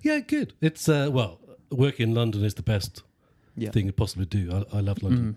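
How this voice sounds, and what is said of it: Geordie Northeast English accent. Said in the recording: “I'm from the northeast ... proud Newcastle fan ... my Geordie accent”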